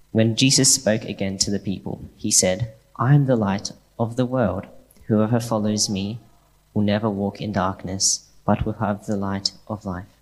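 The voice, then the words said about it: Polished radio-style reading voice. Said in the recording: “What a great radio voice.”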